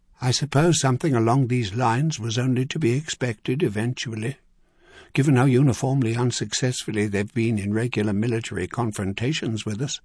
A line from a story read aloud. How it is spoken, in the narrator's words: Pine Hollow said quietly